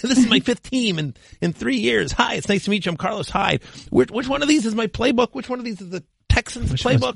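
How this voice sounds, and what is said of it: Impression of Carlos Hyde. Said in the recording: “do a quick impression ... I have a Carlos Hyde impression.”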